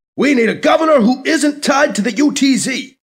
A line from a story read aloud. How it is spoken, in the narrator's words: McIntyre's face shouts off the screen